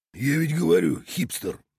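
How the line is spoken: Through gritted teeth. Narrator (Russian): процедил Копыто

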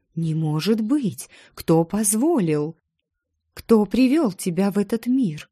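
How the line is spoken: Agitated woman asking. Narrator (Russian): взволнованно спросила женщина

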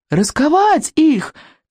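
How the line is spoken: Shouted command. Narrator (Russian): крикнул Икинг

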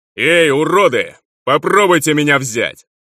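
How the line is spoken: Yelling, taunting. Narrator (Russian): заорал утес

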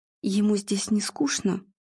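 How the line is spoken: Quiet question. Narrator (Russian): тихо поинтересовался Игорь

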